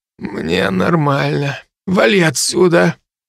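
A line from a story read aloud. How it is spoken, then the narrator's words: Hoarse croak. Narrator (Russian): я прохрипел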